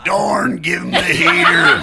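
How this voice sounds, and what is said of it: Impression of Major League pitching coach. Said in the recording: “the most random impersonation I can do ... you ever seen Major League? ... The pitching coach ... Great back pocket impression.”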